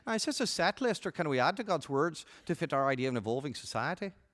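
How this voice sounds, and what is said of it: Put-on Irish accent. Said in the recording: “In your own Irish professor accent, you were saying”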